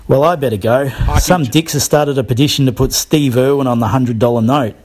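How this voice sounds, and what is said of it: Australian accent. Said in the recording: “His accent, I thought it was a gag... That's a true Aussie”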